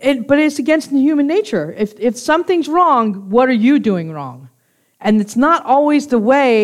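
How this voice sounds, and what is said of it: Usual voice. Nothing is said of it.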